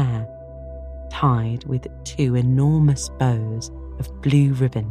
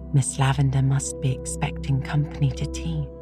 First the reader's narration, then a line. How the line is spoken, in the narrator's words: she whispered